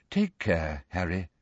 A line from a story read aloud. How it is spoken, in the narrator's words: said Lupin quietly